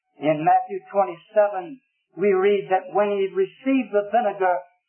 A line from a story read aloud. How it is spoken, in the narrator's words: cried with another, notice, with a loud voice